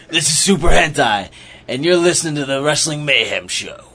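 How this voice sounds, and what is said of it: Put-on comic character voice. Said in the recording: “I'm doing it in my Super Hentai voice. ... That sounds like my McDonald's driving through the drive-thru the second time ordering voice.”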